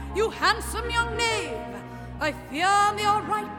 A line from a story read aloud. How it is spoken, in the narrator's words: cried his highness